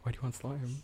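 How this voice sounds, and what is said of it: Whispering. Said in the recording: “why are we whispering? We have microphones in front of us.”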